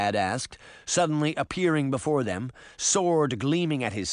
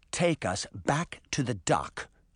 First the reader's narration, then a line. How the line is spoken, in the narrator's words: she said calmly